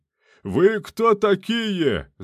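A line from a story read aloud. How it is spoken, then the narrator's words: Yelling. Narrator (Russian): заорал теплоходный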